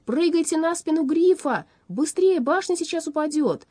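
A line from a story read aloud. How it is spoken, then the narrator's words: Shouting. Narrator (Russian): Аларм крикнул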